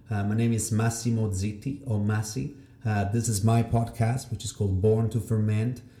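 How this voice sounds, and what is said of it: Mixed European accent, Italian-tinged. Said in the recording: “you will have to deal with my accent... it's a mix of 7 different countries... there's a bit of Italian... there's a bit of the French, there's a bit of Spanish”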